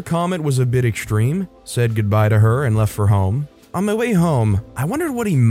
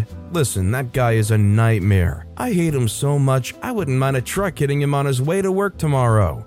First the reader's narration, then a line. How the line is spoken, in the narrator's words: continued laughing